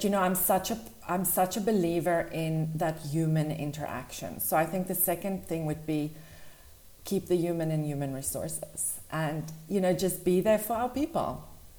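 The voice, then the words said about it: South African accent. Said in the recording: “I love that South African accent.”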